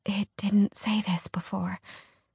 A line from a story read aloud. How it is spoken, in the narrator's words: Alex whispered